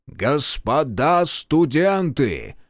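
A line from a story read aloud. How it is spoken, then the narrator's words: Strong lecturing call. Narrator (Russian): воззвал Павел Алексеевич сильным лекторским голосом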